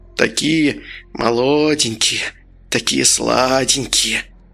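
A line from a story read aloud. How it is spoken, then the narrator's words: Thin quavering voice. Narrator (Russian): произнес Кукишанский тонким дребезжащим голоском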